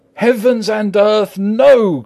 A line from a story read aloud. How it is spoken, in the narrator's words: cried Arthur in a storm of passion